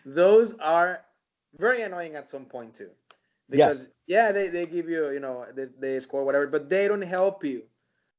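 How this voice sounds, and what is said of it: Speaks with a noticeable accent. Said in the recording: “my accent is killing me”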